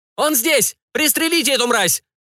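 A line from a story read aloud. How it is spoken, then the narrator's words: Strained scream. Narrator (Russian): Надрывно закричала Бернадет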